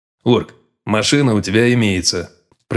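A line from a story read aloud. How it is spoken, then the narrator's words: Dry tone. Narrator (Russian): проговорил он сухо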